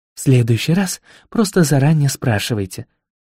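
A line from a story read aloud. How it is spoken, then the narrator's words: Sigh. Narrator (Russian): вздохнула леди Сатофа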